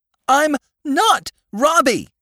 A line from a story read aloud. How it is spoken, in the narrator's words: cried the child